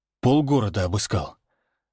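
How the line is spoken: Breathless exhale. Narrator (Russian): выдохнул Всеволод

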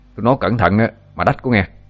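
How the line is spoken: Shouted. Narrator (Vietnamese): Nó quát

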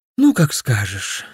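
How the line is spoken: Sighing. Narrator (Russian): вздохнул я

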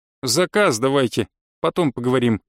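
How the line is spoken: Snorting. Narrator (Russian): хмыкнула Наташа

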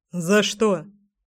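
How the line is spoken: Snorting. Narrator (Russian): хмыкнул мой Гром

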